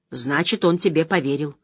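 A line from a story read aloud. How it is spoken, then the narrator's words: Plain. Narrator (Russian): сказал Ранд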